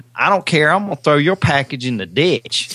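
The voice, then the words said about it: Put-on Alabama accent. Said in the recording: “the woman in Alabama ... do the accent”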